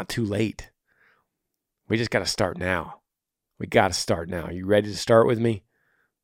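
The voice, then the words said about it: Tired voice. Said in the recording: “I don't know if y'all can tell, my voice is tired. I've been doing a lot of radio talking lately.”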